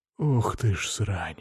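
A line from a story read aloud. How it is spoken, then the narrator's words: Breathless exclamation. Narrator (Russian): выдохнул я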